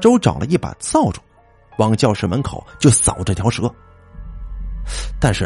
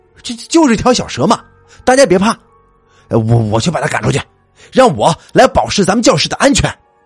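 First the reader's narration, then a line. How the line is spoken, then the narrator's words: Shouting. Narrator (Chinese): 大周大喊一声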